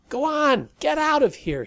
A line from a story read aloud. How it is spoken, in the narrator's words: yelled with irritation